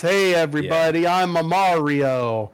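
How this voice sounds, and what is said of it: Cartoonish Italian Mario character voice. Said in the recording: “doing his Mario voice.”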